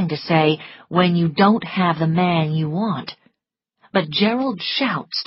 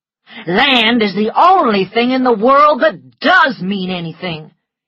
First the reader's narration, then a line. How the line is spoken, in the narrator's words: he cried